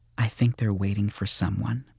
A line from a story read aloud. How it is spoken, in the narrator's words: she said quietly